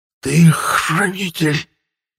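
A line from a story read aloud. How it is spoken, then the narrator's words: Strained forced words. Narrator (Russian): выдавил из себя мой противник с великим трудом, напрягая мощные мышцы своего тела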